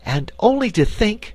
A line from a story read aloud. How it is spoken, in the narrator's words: cried Dorothy